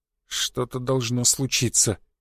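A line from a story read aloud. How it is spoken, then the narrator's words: Mutter under breath. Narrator (Russian): пробормотал создатель себе под нос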